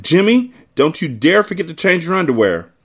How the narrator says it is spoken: One woman shouted

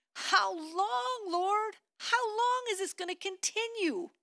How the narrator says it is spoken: ached and cried out to God like David did in Psalm 6, verse 3, where he cried

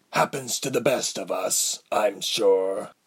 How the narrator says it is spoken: Althod replied gruffly

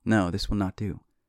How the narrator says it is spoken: she sighs

